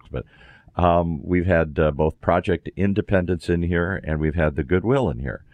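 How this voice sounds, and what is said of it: Raspy voice from a cold. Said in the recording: “my voice is so raspy today. I'm fighting a cold”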